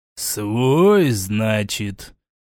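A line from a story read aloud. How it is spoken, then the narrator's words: Drawled. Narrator (Russian): Протянул Квер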